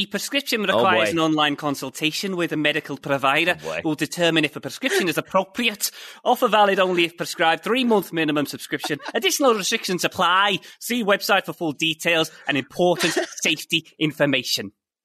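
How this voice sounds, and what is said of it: English regional accent impression. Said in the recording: “your fancy English accent ... Which accent would you like me to go for today? Which region? ... I think I'll go Stevie G.”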